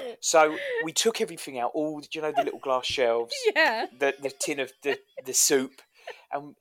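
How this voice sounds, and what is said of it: Usual voice. Nothing is said of it.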